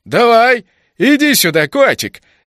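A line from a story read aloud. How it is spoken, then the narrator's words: Mocking reply. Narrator (Russian): Издевательски отозвался тот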